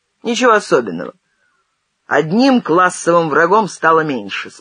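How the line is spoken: Calm objection. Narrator (Russian): спокойно возразил Зенин

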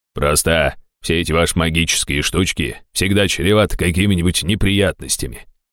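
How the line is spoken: Grumbling. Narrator (Russian): проворчал он

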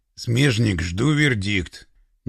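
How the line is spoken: Through gritted teeth. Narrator (Russian): процедил Пашка

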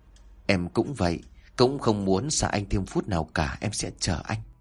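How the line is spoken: Happy soft murmur. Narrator (Vietnamese): Linh hạnh phúc lắm, thủ thỉ

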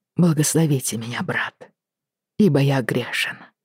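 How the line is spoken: Quiet. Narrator (Russian): тихо начал он

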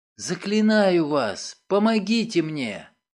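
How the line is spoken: Whisper. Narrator (Russian): прошептала

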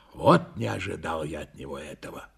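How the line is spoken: Breathless grumble. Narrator (Russian): Тяжело дыша, проворчал я

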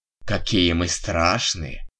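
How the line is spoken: Snide male nurse's snort. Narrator (Russian): фыркнул медбрат в своей обычной ехидной манере

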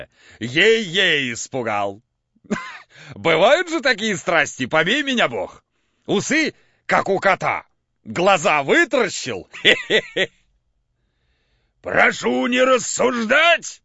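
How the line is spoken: Shouting at full strength, trembling. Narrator (Russian): крикнул изо всей силы Евстрат Спиридоныч и задрожал

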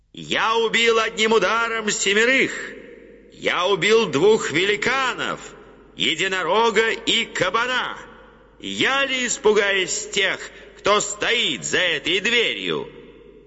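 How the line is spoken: Loud. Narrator (Russian): Услышав шум за дверью, он сказал громко

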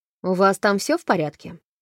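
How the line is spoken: Brisk with quiet weariness. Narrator (Russian): бодро заговорила Холт, но в ее голосе была некоторая тихая усталость

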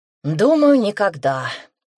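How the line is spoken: Sighed, younger speaker. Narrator (Russian): вздохнул младший

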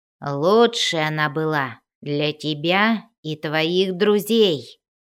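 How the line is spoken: Growling. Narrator (Russian): зарычал Бреннер

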